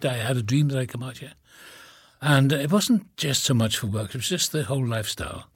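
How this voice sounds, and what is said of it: Slight Welsh accent. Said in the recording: “you don't have quite the Cali accent. You still have a bit of your Welsh accent.”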